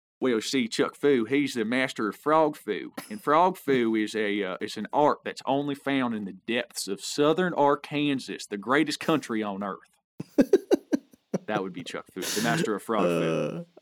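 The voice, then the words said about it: Put-on Arkansas accent, character voice. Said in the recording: “my character Chuck Fu and have an Arkansas accent ... Chuck Fu and your Arkansas accent”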